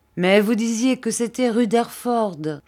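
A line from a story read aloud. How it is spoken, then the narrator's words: Laughing exclamation. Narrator (French): s'écria Ham en riant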